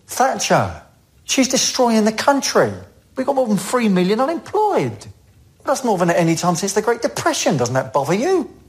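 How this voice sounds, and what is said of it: London accent. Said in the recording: “That's his London accent.”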